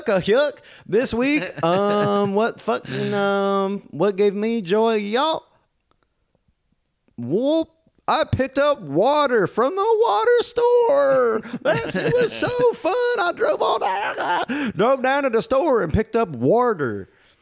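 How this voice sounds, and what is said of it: Exaggerated hillbilly character voice. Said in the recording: “it's Hillbilly voice ... Jack, the crazy hillbilly ... talking like a South Park character ... My jaw's unhinged.”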